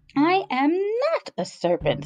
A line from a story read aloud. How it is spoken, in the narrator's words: said Alice indignantly